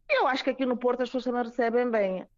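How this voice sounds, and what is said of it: Strong northern Portuguese accent. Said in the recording (Portuguese): “sotaque do norte já, já temos aí bem forte ... uma moçambicana com um sotaque bem do norte”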